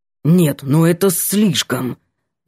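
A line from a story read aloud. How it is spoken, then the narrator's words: Angry through clenched teeth. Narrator (Russian): Бросил сердито сквозь зубы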